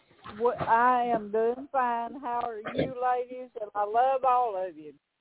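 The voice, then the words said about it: Southern US accent. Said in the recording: “I love your accent. You're my Southern Belle. ... I love that Southern accent.”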